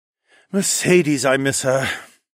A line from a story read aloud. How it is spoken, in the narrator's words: Horace sighed, like the lovesick fool he was